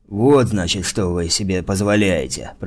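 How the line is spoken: Hiss. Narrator (Russian): прошипел он

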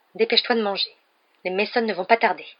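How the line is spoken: Curt, dry. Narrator (French): dit sèchement la tante Pétunia

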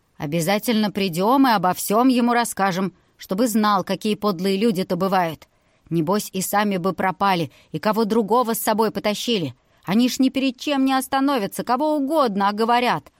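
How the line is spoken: Booming. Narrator (Russian): прогудел

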